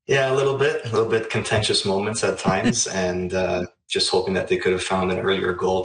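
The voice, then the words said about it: Hoarse voice. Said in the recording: “Their voice is a little hoarse. Was there a lot of screaming yesterday?”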